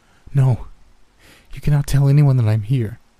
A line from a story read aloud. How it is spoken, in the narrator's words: pleaded abruptly, agitated